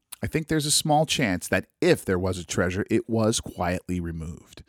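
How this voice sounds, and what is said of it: Voice with a cold, congested. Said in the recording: “you guys can probably hear from my voice. I'm fighting off a cold again ... forgive my my swallowings and all that kind of terrible noise”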